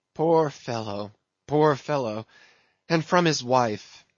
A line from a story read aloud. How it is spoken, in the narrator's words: sighed Mayhew